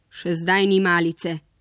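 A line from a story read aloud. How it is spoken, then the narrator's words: Grumbling man. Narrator (Slovenian): je godrnjal mož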